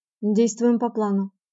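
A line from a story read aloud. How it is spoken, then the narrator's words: Very quiet, through teeth. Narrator (Russian): говорил он сквозь зубы очень тихо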